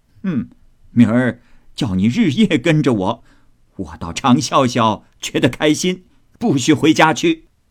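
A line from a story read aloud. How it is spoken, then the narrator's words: Old woman laughing. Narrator (Chinese): 贾母笑道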